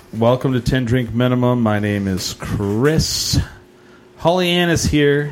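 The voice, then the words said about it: DJ-style announcer voice. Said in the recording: “doing a DJ voice”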